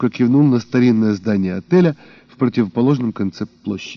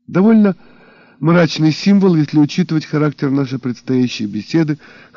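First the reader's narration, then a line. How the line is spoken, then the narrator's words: Wry snort. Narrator (Russian): хмыкнул брюнет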